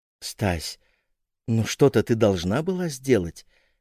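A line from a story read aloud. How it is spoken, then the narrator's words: Gentle. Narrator (Russian): мягко сказал Ваня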